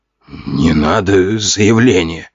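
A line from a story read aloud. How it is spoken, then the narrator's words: Hoarse croak. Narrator (Russian): прохрипел очкарик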